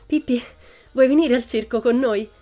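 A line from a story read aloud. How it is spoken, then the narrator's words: Breathless panting after running. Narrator (Italian): ansimò Tommy, che aveva fatto una gran corsa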